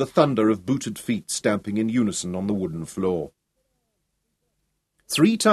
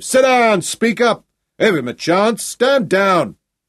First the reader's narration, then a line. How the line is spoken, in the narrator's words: bellowing above the shouts